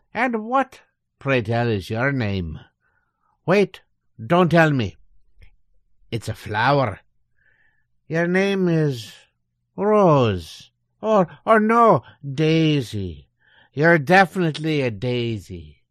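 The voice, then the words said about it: Put-on stage Irish accent. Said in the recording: “you can just drop the stage Irish accent”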